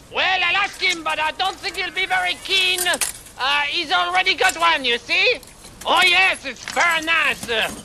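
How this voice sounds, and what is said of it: Outrageous put-on French accent. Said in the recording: “I'm French! ... I have this outrageous accent”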